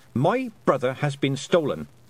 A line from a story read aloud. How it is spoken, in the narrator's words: said Tiffany sharply